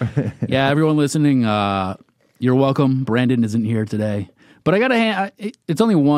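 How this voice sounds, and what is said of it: Usual voice. Nothing is said of it.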